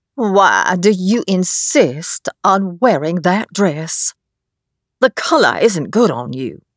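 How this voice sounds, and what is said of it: Slow drawling elderly woman's voice. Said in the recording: “Granny said in a slow drawl”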